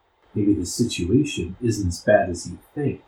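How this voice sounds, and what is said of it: Low, quiet voice. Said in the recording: “in a low voice.”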